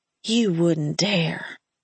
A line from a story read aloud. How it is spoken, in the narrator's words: I said in a breathy voice that sounded a little phone sex operator-ish